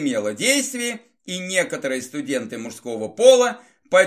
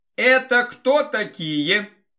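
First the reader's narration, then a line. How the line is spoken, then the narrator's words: Shouted from behind a crowd. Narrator (Russian): выкрикнул вице-президент откуда-то за спинами представителей своего электората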